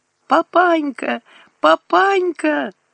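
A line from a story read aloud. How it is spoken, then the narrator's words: Sobbing. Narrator (Russian): рыдала Катька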